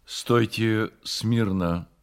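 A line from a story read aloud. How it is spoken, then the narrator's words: Plain. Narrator (Russian): сказал он им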